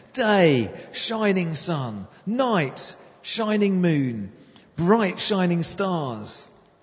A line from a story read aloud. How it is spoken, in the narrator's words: God shouted